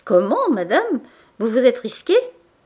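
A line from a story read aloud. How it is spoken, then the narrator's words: Cheerful exclamation. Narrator (French): s'écria gaiement Boutemont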